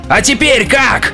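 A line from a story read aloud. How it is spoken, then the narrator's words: Shouted out. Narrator (Russian): выкрикнул Каслмолд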